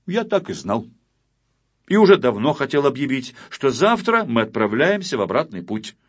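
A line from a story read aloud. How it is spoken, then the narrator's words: Loud, assertive. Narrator (Russian): Незнайка, чтобы не забывали, кто тут капитан, громко сказал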